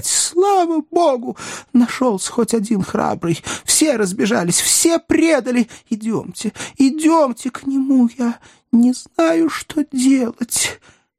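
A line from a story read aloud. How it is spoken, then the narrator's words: Sobbing woman. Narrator (Russian): продолжая рыдать, она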